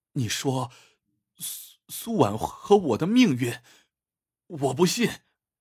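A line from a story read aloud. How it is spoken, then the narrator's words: Trembling voice. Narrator (Chinese): 他的声音也颤抖起来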